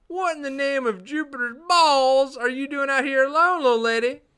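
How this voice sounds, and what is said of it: Redneck voice impersonation. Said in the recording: “I can do the redneck ... the redneck impersonation perfectly”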